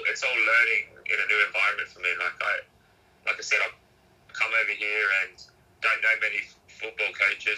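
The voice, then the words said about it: Australian accent. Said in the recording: “do people pick up on your accent?... you're like Aussie... most people have been saying Australian or even even Kiwi”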